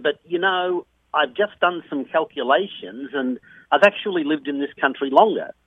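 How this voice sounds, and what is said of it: Australian accent. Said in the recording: “you're from Australia originally ... I've been, lucky to keep it ... there's still a lot of Australian accent in my life”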